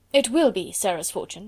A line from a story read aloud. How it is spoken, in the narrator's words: replied Mr